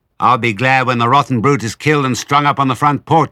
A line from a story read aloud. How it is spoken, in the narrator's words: she called out